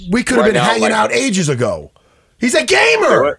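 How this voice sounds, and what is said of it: Excited yelling. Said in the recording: “I get so excited. Sorry for yelling”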